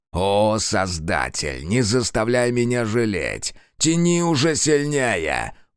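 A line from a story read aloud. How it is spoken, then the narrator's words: Growling. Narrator (Russian): прорычал Фергус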